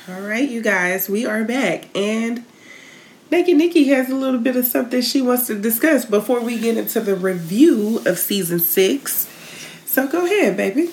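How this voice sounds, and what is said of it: Polished put-on customer service voice. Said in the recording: “You put on the accent when I hit the button. It's like the white lady from work comes out ... My customer service voice? ... Customer service voice”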